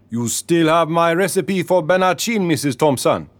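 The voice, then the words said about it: Deep Caribbean accent. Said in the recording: “He spoke in a deep Caribbean accent.”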